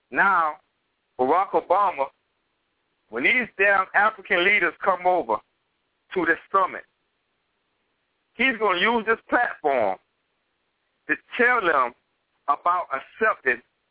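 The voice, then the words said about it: Southern Georgia Gullah-influenced dialect. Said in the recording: “I'm Georgia down, DC down, Gullah down ... It's just my dialect ... they don't understand, you know, my dialect too good. They think I'm from the islands, and really I'm not. I'm from Georgia.”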